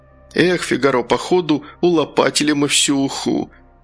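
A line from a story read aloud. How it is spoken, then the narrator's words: Sad sigh. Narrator (Russian): Гастон грустно заглянул в котелок и вздохнул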